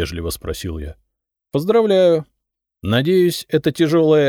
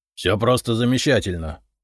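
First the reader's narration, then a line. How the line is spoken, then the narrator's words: Snort. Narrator (Russian): фыркнул Долгоруков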